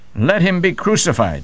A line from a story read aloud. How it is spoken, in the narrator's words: The multitudes cried out